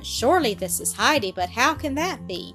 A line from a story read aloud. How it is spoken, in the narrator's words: Peter's mother exclaimed in her excitement, in her amazement